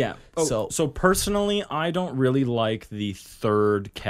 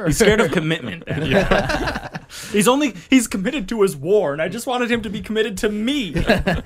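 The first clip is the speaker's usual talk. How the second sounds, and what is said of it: Mock voice of a chaos demon. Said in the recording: “Is that your impression of Slaanesh? ... That was my impression of any of the chaos.”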